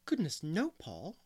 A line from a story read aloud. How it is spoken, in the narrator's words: exclaimed Anne in amazement